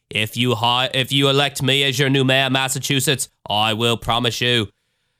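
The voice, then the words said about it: Poor impression with Australian-sounding accent. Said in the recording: “That was my Australian Kennedy attempt. I don't know what the fuck that was. ... the horrible impersonations.”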